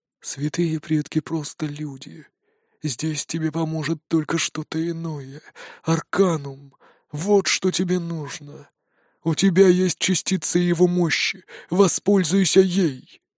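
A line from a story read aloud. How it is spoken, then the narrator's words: Sweet inner whisper. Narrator (Russian): Шепот в голове такой сладкий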